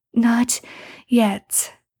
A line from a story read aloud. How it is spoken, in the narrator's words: Sam pants